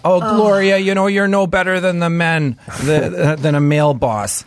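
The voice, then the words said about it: Thick Wisconsin accent. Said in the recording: “In a thick Wisconsin accent? ... Oh, yeah. Yeah.”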